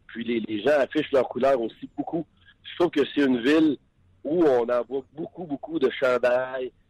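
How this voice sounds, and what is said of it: Strong Shawinigan regional French accent. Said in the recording (French): “les gens au restaurant ils reconnaissent euh, mon accent, évidemment. Euh, mon accent de Shawinigan, il est assez dur à cacher.”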